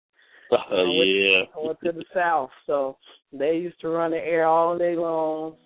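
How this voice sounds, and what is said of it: Hoarse voice. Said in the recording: “I'm just a little hoarse today ... I caught a cold ... I'm a little hoarse.”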